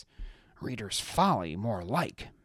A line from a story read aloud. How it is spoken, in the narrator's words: Maeve muttered